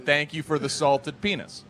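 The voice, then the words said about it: Imitated Northeastern American accent. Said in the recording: “Northeastern accent.”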